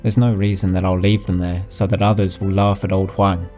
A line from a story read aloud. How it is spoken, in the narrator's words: answered calmly